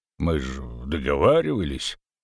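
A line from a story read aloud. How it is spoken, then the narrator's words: Uncertain grumble. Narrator (Russian): неуверенно проворчал толстяк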